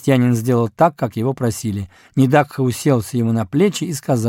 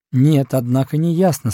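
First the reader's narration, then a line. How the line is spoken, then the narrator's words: Answered calmly. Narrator (Russian): спокойно ответил учитель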